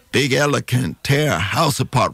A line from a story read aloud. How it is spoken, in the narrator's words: Rufus said